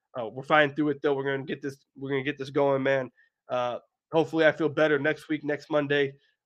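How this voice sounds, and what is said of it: Scruffy, sick-sounding voice. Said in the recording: “sorry for my voice ... I'm sorry that I sound a little sick ... this kind of scruffy voice”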